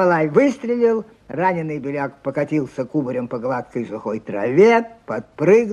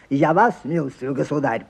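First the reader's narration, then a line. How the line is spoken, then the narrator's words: Curt, harsh voice. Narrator (Russian): прибавил он тем же отрывистым и резким голосом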